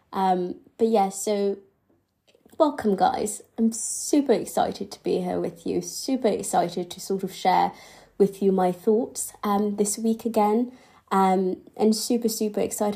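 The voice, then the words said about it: Slightly nasal, congested voice. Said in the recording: “Don't mind my voice, I had the flu on Sunday, and I'm still sort of getting over it, so my voice is a little bit nasally.”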